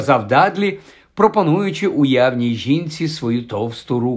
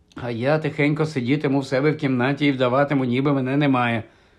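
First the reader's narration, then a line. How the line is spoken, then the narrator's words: Muttered. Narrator (Ukrainian): знову пробурмотів Гаррі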